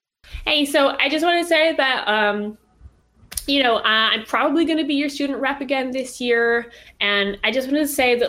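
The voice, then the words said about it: American Valley Girl-ish character voice. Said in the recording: “I did give an American accent, didn't I? ... She was kind of like Valley Girl-ish. ... I did default to that.”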